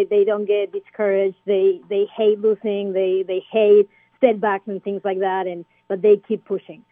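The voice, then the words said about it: Argentine-accented English. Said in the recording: “trying to place the accent that you have, but you are originally from Argentina”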